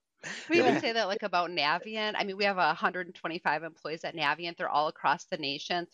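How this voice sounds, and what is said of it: Strong Yooper (Upper Michigan) accent. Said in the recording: “I am known at Navient for having the strongest Youper accent. ... I have a really strong. ... I can't unhear it now.”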